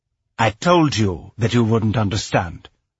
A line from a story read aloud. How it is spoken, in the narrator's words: said, her voice cold and cutting